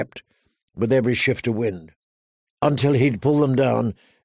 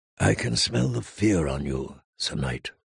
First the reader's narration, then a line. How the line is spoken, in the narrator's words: the Red Woman said softly